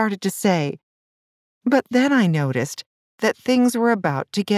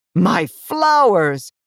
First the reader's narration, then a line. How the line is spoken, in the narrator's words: cried the flower seller